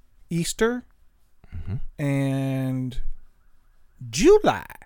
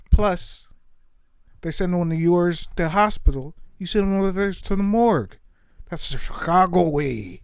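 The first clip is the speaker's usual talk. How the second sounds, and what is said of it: Impression of The Untouchables character. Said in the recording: “The Untouchables, thank you. ... It's a great counter impression.”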